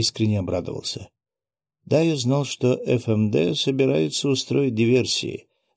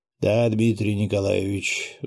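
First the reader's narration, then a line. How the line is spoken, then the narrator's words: Sighing. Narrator (Russian): вздохнул он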